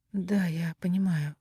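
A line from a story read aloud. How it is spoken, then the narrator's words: Mutter. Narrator (Russian): пробормотала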